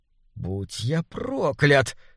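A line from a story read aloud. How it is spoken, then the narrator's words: Heavy wheeze. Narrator (Russian): тяжело прохрипел Адьер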